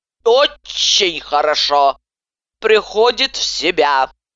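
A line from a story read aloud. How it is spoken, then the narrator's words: Hoarse muttering. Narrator (Russian): хрипло приговаривая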